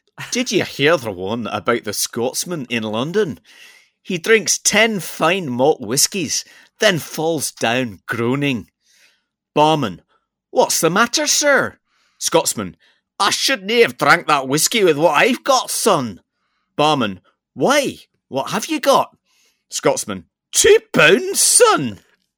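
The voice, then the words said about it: Put-on Scottish accent. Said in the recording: “I'm going to have to do it in a Scottish accent”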